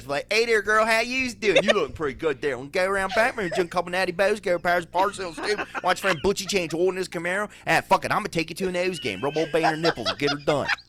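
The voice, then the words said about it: Exaggerated Baltimore accent. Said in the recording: “you can't do that with a Baltimore accent. With a Baltimore accent”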